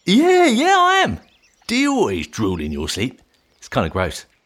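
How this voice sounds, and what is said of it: Exaggerated Cockney accent. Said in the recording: “that terrible Cockney accent”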